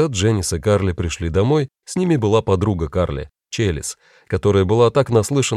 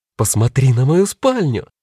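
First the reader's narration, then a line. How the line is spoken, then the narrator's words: Categorical exclamation. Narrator (Russian): безапелляционно воскликнула Карли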